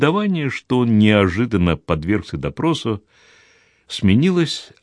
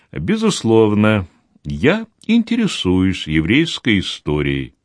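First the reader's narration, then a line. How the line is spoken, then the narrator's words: Calm. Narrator (Russian): спокойно ответил Деронда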